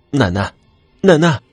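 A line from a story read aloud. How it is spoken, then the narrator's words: Anxious loud shout. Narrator (Chinese): 我急了，就大声喊了起来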